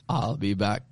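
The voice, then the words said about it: Poor German accent, Terminator impression. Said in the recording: “If I do this with a German accent ... That was not a good German accent at all.”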